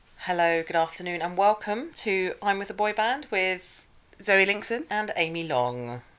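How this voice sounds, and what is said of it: Formal non-regional BBC-style accent. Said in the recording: “It's very formal... have we suddenly picked up sponsorship from the BBC or something?... I'm practicing my non-regional dialect.”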